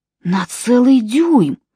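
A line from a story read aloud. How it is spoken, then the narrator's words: Breathless exhale. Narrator (Russian): выдохнул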